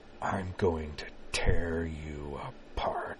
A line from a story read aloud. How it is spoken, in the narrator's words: Corwin ... whispered in a low, venomous rasp